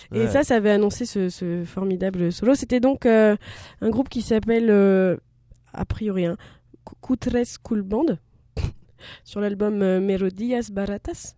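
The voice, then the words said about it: Congested voice from a cold. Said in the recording (French): “Enrhumé... Mon rhume, enfin mes allergies”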